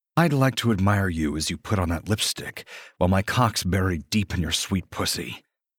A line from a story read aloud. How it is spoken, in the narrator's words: I growl